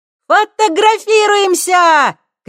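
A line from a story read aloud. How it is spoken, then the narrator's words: Shouted. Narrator (Russian): крикнула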